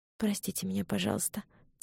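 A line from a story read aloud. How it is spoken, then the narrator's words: Quiet apology. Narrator (Russian): тихо сказала Элизабет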